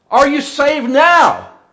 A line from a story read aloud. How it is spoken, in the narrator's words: he called out